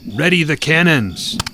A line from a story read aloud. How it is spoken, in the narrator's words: a young lieutenant called out the order